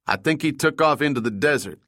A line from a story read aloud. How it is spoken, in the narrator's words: Link said